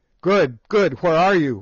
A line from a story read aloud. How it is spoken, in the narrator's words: we shouted in terrified distress